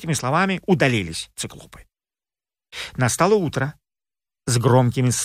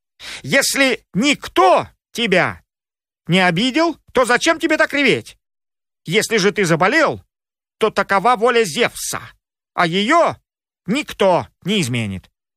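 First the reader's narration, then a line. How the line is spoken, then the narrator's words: Angry shouting. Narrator (Russian): Рассердились циклопы и крикнули Полифему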